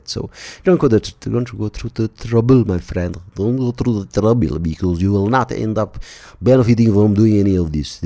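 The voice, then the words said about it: Poor mock Russian/South Indian accent. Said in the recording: “a half-assed attempt at the Russian/South Bangalore / some shitty accent”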